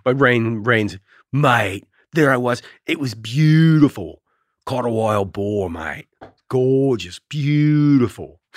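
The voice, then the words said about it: Australian accent. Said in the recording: “my accent, which I don't hear ... You do have an accent.”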